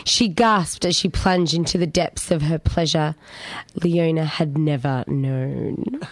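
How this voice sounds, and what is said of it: Husky, sexy reading voice. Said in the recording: “sexy voice for it... It's gone a little bit huskier.”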